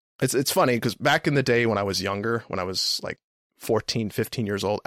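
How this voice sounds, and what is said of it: Dry, strained, worn-out voice. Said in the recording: “my voice is so dry and shot right now”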